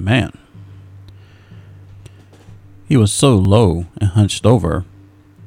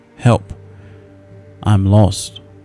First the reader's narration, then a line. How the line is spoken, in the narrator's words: it said